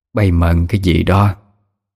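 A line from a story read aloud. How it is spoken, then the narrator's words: Gruff question. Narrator (Vietnamese): bà Hai cất tiếng ồm ồm hỏi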